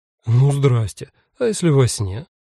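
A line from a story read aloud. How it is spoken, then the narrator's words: Sigh. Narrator (Russian): вздохнул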